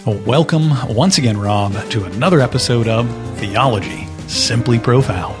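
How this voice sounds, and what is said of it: Announcer-style radio voice. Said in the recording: “Get that radio voice going. ... I got to get the radio voice out there.”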